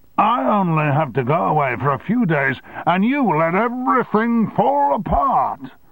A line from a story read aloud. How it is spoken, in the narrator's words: he screamed